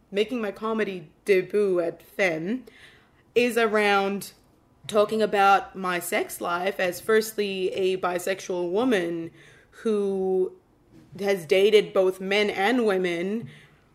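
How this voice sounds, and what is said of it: Non-Australian foreign accent. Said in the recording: “the weird accent, guys, in case you're wondering why I don't sound Australian. That's why I sound weird.”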